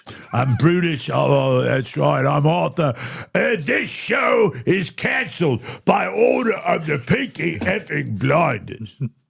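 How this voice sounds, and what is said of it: British accent as Arthur Shelby. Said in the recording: “effective British accent”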